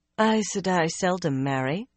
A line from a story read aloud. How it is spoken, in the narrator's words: Egwene told her coolly